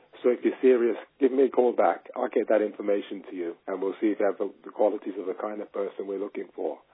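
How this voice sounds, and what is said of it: Striking accent, intriguing phone voice. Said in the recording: “you have an amazing accent and you have an amazing phone voice. It's very intriguing, very, very intriguing ... your tone was perfect as far as you're not overly bubbly, you're not super boring”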